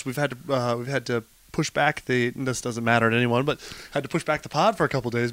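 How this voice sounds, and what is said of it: Hoarse voice. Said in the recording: “So I'm a bit hoarse. ... lost the old voice ... no voice”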